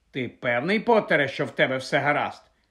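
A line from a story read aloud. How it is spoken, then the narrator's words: Sharp question. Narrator (Ukrainian): різко запитала професорка МакГонагал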